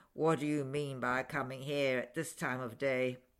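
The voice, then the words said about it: Gruff growling character voice. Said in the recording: “growled Scrooge in his accustomed voice, as near as he could feign it”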